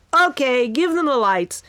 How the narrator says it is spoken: he shouted to the gathered crowd

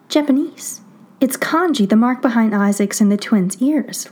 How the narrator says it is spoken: Lydia blurts

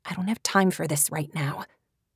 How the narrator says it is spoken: Tori hissed

